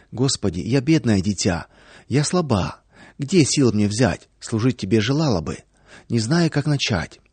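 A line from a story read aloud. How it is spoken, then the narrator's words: Soft prayerful whisper. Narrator (Russian): Во время молитвы Наташа тихонечко шептала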